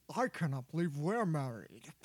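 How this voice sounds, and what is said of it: Poor Sean Connery impression. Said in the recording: “I would do my best Sean Connery accent ... as my James Bond voice. It's pretty bad.”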